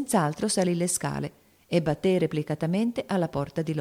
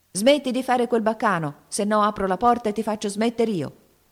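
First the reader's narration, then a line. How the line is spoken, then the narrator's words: Threatening yell. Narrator (Italian): urlò il signorino in tono di minaccia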